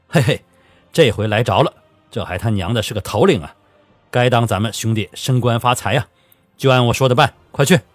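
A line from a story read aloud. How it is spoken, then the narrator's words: Hearty laughter. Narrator (Chinese): 左进忠闻听，哈哈大笑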